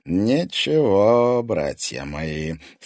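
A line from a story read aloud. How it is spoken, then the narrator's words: Ingratiating, insinuating. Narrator (Russian): вкрадчиво обратился к ним Корф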